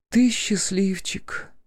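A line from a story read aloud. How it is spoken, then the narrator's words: Bitter sigh. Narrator (Russian): горько вздохнула она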